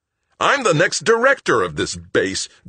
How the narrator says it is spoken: Greg roared

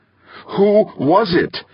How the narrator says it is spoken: Molina fairly screamed

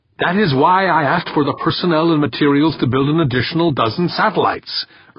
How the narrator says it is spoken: Urbane snapped

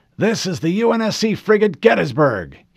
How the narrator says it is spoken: he barked, his voice full of authority and colored with his Texas accent

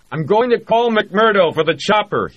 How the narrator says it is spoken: he shouted at Hoffman and Joanna

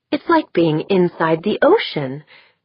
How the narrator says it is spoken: she exclaimed

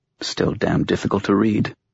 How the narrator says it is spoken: she muttered

